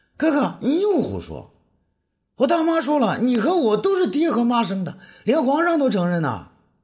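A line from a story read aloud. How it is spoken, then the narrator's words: Anxious shout. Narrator (Chinese): 那珠儿听了更急啊，他叫道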